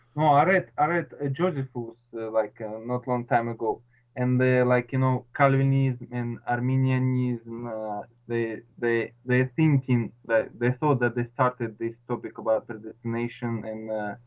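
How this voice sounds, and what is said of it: Noticeable foreign accent. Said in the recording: “you have a bit of an accent.”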